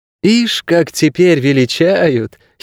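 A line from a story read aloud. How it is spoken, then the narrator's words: Giggled. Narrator (Russian): хихикнула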